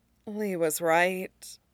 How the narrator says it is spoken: Amaya muttered under her breath, too quiet for any but Toph's sharp ears to catch

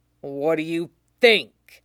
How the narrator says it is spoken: Zoro growls

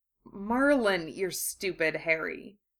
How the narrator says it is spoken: Draco muttered

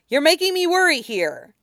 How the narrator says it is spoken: he shouted

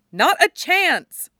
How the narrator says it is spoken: Stiles shouts back

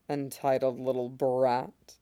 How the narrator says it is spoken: he murmurs

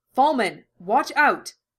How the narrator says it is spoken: Hawkeye shouted, her voice carrying clearly through the waterlogged air

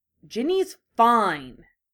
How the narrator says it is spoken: Harry snapped, irritated with his friends

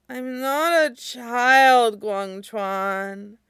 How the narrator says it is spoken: Tang Fan slurs petulantly

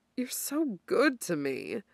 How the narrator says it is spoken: Dorian murmurs, eyes closed

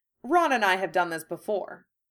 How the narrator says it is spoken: he said firmly

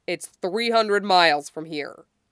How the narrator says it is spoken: Jim snaps

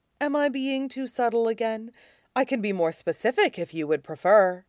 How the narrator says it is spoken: Zevran pulls away enough to ask sweetly

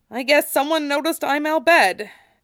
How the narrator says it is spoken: said, his voice tight

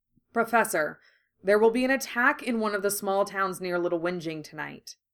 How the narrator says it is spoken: he said bluntly

